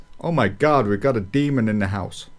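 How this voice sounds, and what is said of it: Put-on American accent. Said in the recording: “I'd question that American accent”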